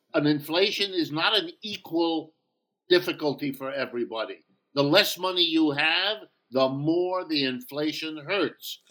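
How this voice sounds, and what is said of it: New York accent. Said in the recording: “Are you from New York? ... where'd you get that accent? It's not Youngstown. ... if you live in the New York area, you pick it up”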